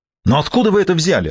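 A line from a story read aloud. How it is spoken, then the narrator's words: Irritated. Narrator (Russian): раздраженно проговорил Франкер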